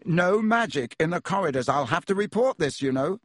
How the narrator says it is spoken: said Percy loudly

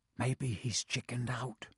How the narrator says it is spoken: Ron whispered

